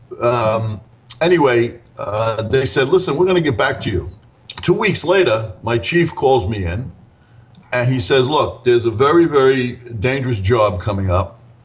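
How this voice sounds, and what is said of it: Brooklyn accent. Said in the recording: “my Brooklyn accent, which was very prevalent at the time. ... I think it's still pretty prevalent.”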